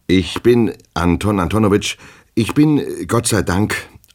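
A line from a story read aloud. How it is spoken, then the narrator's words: Stuttering answer. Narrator (German): antwortete Herr Goljetkin stotternd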